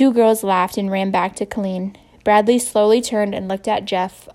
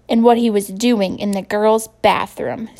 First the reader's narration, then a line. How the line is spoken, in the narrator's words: screeched Lori